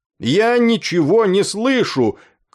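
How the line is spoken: Shout. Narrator (Russian): крикнул он

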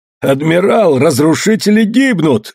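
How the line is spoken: Joyful shout. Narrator (Russian): радостно закричал Осима

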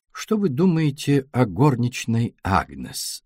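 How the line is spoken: Plain. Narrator (Russian): спросил Пуаро

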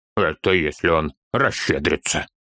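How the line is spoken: Snorting chuckle. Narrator (Russian): хмыкнул Торин

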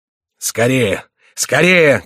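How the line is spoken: Shouting. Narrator (Russian): кричал граф

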